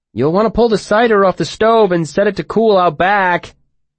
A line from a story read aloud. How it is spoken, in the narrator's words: Bast called out to him loudly